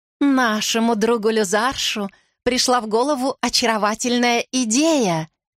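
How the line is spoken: Melodious woman's voice. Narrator (Russian): говорит госпожа Тирион, блондинка с певучим голосом

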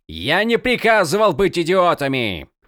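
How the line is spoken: Fortress lord shouting. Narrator (Russian): кричал владыка крепости Черного Грача

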